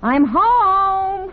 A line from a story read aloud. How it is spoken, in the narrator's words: he'll yell